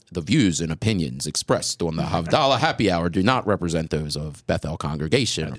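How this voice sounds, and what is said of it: Smooth announcer-style radio voice. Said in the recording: “You use my radio voice.”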